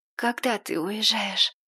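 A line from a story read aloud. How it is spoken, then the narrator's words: Hoarse, trembling with emotion. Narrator (Russian): Дрожащим от волнения голосом я хрипло спросила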